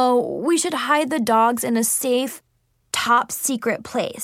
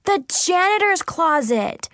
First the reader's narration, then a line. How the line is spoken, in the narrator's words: we yelled excitedly